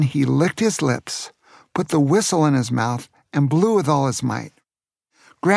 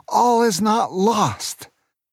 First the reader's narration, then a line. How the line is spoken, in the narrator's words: He shouted to Aunt Sarah and Booker